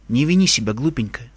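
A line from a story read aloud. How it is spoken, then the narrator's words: Tender. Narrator (Russian): ласково сказала она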